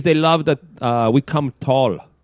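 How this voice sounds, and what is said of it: Put-on exaggerated Asian accent. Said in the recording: “Now I sound Asian. ... sounds like a hacky Asian accent.”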